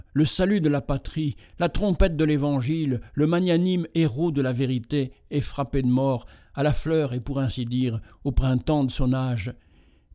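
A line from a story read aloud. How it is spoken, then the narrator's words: Tearful exclamation. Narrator (French): s'écriant Hédion avec larmes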